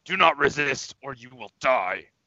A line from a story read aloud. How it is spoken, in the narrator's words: I'll shout in Orcish again